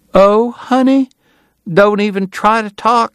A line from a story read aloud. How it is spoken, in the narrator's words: she cried